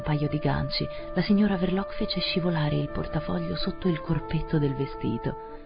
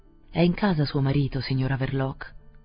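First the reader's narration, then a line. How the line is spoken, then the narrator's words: Resonant, casual question. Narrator (Italian): chiese con tono sonoro, disinvolto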